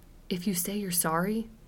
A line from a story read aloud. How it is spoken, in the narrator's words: whispered Trish